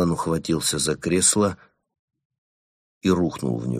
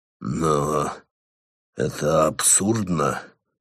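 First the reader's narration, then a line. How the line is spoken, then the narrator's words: Breathless exhale. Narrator (Russian): выдохнул он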